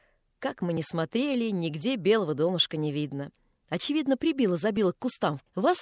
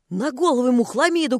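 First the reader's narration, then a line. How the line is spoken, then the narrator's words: Deacon shouting. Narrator (Russian): крикнул дьякон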